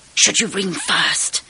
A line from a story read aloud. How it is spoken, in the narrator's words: whispered Sharon